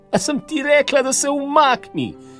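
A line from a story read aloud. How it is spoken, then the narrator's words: Very angry woman shouting. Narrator (Slovenian): je kričala žena na nebo, zelo, zelo jezna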